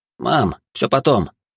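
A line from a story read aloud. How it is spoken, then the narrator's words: Calm. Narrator (Russian): спокойно произнес Гарри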